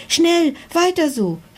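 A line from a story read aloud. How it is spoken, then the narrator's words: Dragon's excited call. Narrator (German): rief der Drache aufgeregt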